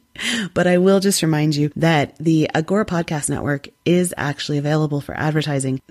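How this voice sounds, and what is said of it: Strained, fading voice. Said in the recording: “I'm losing my voice already”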